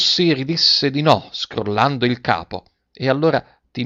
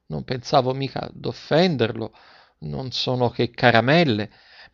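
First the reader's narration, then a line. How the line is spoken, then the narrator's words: Mortified stammering apology. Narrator (Italian): La donna rimase mortificata e domandò scusa, balbettando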